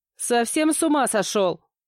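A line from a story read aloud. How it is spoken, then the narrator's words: Shout after someone. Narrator (Russian): крикнула я вслед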